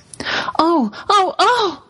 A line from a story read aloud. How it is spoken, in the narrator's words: cried the two girls